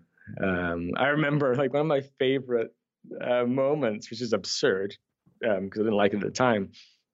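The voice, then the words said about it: Mixed Scottish-Canadian accent. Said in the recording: “is it is it uh, Irish or Scottish? Scottish... I acquired a Scottish accent. Yes. I was then able to lose it, so now I'm kind of a mutt. Like I, I have this Scottish Canadian weird kind of thing going on.”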